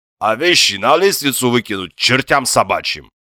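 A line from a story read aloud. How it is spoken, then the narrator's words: Deep chest-voice exclamation, man. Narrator (Russian): Грудным голосом воскликнул бывший князь, а ныне трудящийся Востока гражданин Гигинишвили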